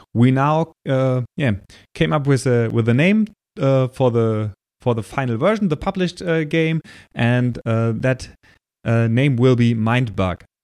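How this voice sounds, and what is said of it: German-accented English. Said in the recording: “my German accent and my bad pronunciation”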